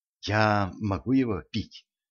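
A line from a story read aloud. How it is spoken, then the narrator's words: Whispered question. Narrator (Russian): шепотом поинтересовалась Женька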